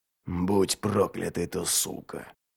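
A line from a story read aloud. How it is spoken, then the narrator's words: Muttered. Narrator (Russian): Снова пробормотал Ральф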